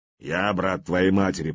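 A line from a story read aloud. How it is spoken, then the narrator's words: Grumbling. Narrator (Russian): проворчал ярл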